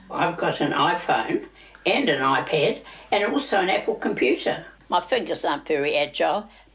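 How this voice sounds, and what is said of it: New Zealand accent. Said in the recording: “New Zealand accent of the week”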